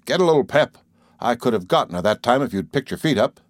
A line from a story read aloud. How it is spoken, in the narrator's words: Perry would snarl, fiercely between his clenched teeth